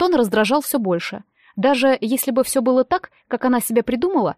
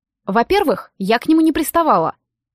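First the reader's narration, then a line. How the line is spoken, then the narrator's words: Snapping back. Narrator (Russian): огрызнулась я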